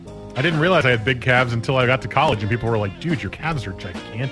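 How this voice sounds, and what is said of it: Smooth, deep baritone radio voice. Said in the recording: “That buttery, smooth radio voice ... smooth, amazing baritone radio voice”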